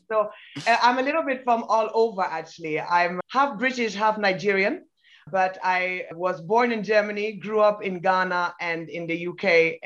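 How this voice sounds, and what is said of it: Mixed international accent, hard to place. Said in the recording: “accent sounds different from Faye's accent ... it's hard to pick my accent ... my accent is a mixture of many different places and influences”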